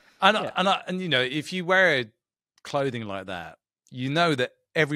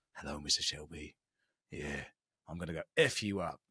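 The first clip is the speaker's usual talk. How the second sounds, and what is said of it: Impression of Tommy Shelby. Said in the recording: “It's a good impression. It's very solid.”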